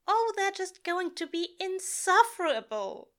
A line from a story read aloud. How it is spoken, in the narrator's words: he whines